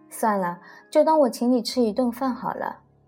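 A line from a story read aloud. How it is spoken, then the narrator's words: Laughing. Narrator (Chinese): 我笑着说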